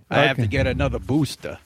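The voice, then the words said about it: Mock Fauci Brooklyn accent. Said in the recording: “Are you mocking Fauci's accent? ... He's from Brooklyn, New York.”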